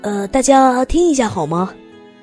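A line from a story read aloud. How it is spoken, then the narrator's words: Loud. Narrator (Chinese): 爸爸的声音很大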